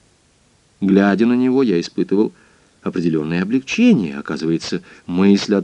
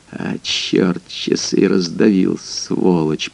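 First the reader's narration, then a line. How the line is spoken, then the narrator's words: Muttered. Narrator (Russian): пробормотал он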